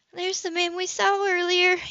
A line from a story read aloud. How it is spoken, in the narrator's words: Eve said, her voice filled with fear